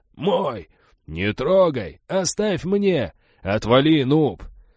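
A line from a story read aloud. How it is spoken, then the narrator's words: Newcomers shouting and squabbling. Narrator (Russian): Новички пытались опередить друг друга, кричали и переругивались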